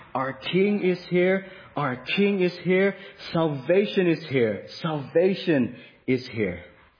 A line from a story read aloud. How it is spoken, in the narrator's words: the people were shouting